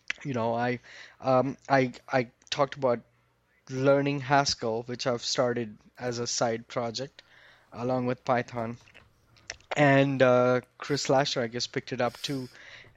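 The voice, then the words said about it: Hoarse, fading voice. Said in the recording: “I'm losing my voice here”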